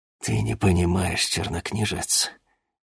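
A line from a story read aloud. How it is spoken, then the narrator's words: Whisper. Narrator (Russian): прошептал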